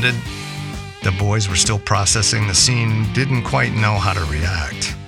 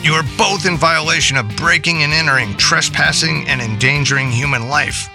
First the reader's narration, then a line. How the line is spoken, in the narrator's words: Slate barked